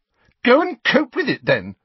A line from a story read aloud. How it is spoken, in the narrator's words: Cho said furiously